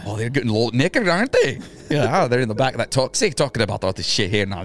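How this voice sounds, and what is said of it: Put-on Scottish accent. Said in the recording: “You do a very good Scottish accent, but it's almost so good that you don't understand what the fuck you're saying.”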